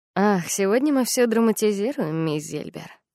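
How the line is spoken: Mocking. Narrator (Russian): насмешливо сказал Генри

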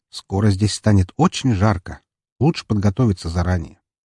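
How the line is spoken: Quiet statement. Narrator (Russian): тихо заявив

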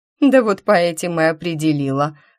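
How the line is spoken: Witch's chuckle. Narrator (Russian): хохотнула ведьма

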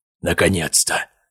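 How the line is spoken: Muttered. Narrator (Russian): пробормотал Гаспар

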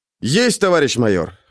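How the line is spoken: Cheerful. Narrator (Russian): бодро произнес я

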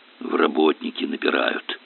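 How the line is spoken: Whisper. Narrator (Russian): шепнул Сашке сосед

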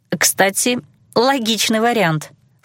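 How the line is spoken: Snorted. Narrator (Russian): фыркнула я

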